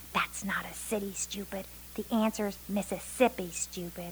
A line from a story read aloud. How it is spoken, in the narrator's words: someone hissed